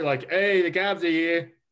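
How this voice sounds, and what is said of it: Thick New Jersey Italian accent. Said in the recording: “a thick New Jersey Italian accent”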